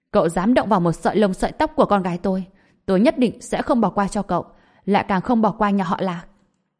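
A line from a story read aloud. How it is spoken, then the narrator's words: Furious shout. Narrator (Vietnamese): Trần Bình hai mắt đỏ bừng quát lên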